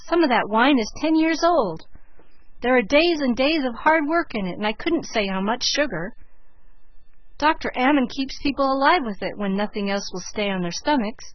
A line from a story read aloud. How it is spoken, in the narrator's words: cried Margaret aghast